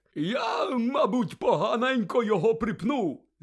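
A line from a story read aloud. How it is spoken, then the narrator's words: Offhand, cheerful. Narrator (Ukrainian): знизав плечима Гегріт, радісно позираючи довкола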